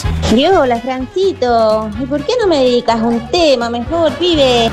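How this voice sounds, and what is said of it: Put-on foreign Spanish accent. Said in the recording (Spanish): “me encantó ese acento”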